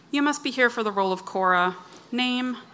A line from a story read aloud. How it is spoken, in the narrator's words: she asked